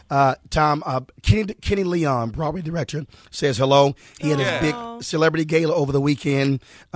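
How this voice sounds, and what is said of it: Unwell, impaired-sounding voice. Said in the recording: “Sorry for my voice. Allergies kicking my butt”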